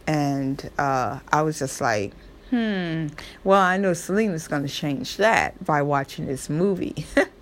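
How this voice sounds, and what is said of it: Southern American accent. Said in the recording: “my Southern accent. That's me. I'm a Southern girl.”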